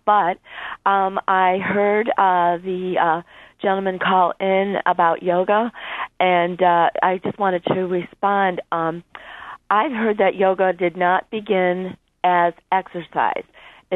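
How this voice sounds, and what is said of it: Congested voice from a cold. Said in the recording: “I've got a bad cold, so I'm not sounding really good right now.”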